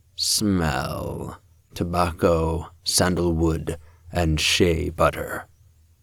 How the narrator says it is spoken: He was definitely purring as he said

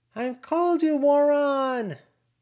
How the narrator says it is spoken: Lucy hollered

